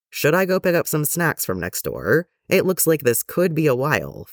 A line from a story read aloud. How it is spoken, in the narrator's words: Fives said